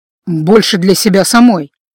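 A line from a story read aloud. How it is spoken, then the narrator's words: Snort. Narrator (Russian): хмыкнул старший следователь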